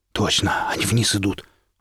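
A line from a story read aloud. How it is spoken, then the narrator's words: Breathy, close to ear. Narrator (Russian): выдохнул напарник над ухом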